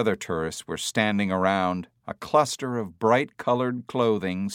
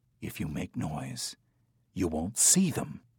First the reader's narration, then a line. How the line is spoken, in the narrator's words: Hager whispered